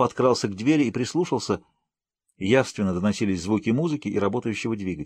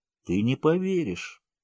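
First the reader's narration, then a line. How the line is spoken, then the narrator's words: Muttering. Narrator (Russian): Пробормотал тот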